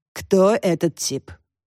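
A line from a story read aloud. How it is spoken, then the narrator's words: Low smoky singsong. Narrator (Russian): Низким прокуренным голосом пропела Янина Марковна, хозяйка сети косметических салонов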